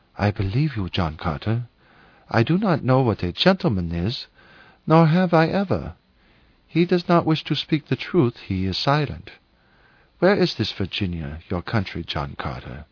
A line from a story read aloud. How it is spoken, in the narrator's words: with a sigh, she whispered